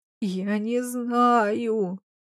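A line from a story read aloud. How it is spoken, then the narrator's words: Moaning. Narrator (Russian): простонала Капа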